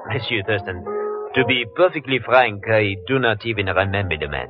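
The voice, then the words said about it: Phony put-on French accent. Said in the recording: “That French accent of yours is as phony as that Hawaiian dancer.”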